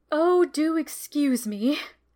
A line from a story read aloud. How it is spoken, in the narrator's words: gasped poor Adelia, wiping tears from her eyes